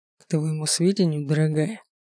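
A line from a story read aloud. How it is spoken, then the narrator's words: Tender whisper. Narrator (Russian): шепнул ласково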